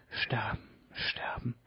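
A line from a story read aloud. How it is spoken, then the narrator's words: Whispering. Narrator (German): flüsterte Myga van Bergen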